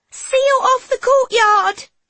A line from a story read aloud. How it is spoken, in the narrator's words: Madame Claire screams